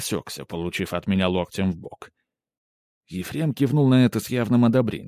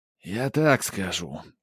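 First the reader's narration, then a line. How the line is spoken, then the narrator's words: Heavy sigh. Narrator (Russian): тяжело вздохнул Ефрем Иванович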